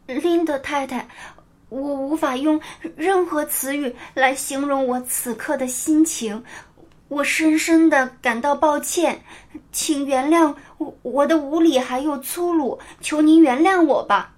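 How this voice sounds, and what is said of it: Nearly trembling pleading voice. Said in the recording (Chinese): “安妮用近乎颤抖的声音说道”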